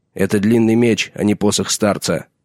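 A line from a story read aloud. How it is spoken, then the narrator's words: Sharp retort. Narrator (Russian): резко бросил сир Алисер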